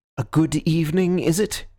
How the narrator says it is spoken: he said sharply

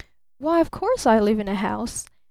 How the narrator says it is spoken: laughed Barton

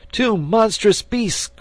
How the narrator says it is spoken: cried he

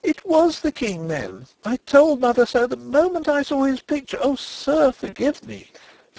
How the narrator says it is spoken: she cried

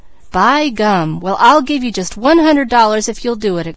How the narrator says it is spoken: exclaimed Peter

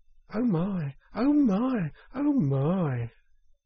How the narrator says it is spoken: It was so very beautiful that the mole could only gasp

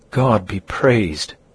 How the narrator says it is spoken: exclaimed the trembling aunt

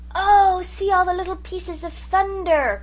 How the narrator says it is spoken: cried Jims in delight

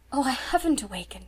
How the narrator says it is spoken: she whispered

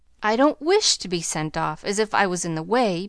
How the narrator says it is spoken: began Amy, in an injured tone

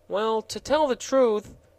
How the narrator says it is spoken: said the gardener in a perplexed tone of voice

